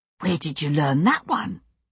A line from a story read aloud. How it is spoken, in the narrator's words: William whispered, deeply impressed